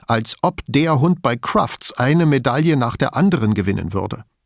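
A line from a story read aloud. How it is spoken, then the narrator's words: Angry. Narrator (German): Wütend fügte hinzu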